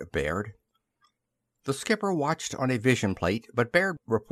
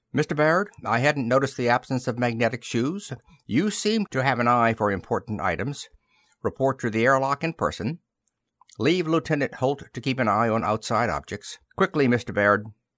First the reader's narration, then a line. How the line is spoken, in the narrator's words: The skipper said curtly